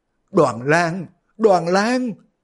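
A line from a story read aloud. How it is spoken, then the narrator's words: Sobbing cry. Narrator (Vietnamese): Dương phu nhân khóc ròng kêu lên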